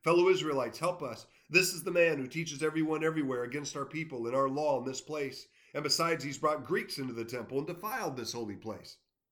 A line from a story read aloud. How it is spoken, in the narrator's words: shouting